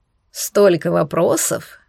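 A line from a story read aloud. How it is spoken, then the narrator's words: Approving snort. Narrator (Russian): одобрительно хмыкнул Кордиэль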